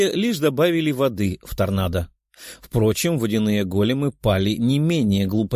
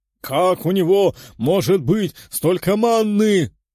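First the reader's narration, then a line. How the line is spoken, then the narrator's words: Lord shouting. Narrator (Russian): кричал южный лорд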